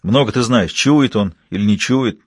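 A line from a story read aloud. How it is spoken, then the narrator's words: Angry curt remark. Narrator (Russian): зло бросил через плечо Орезов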